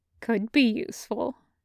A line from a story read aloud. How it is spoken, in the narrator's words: he muttered